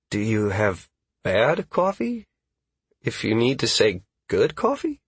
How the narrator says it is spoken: Caius asked hesitantly

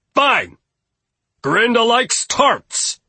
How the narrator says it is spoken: Gustav yelled

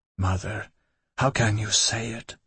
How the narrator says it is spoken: I whispered

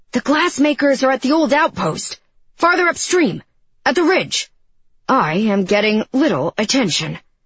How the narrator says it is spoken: He shouted

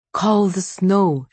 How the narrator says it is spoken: she had begged him

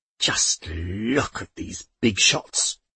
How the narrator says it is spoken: she growled to the aunts

